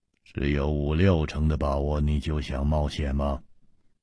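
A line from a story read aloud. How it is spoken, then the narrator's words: Sharp stern. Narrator (Chinese): 姬冰燕厉声说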